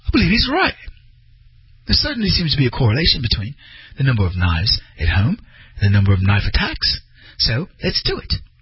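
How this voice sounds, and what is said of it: Poor put-on British accent. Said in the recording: “That was a terrible British accent.”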